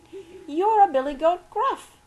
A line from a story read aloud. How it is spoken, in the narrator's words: she exclaimed with awe